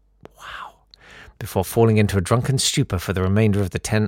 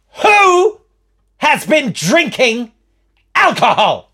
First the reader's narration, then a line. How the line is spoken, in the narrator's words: of fury, and spat out